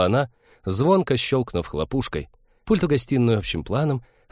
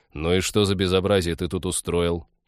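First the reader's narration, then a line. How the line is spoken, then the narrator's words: Weary question. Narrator (Russian): устало поинтересовался Станислав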